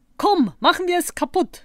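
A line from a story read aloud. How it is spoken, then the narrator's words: Call. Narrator (German): rief Zottel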